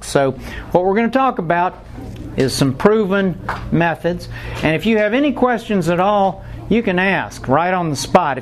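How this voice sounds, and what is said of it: Atlanta Southern accent. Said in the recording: “my Atlanta accent”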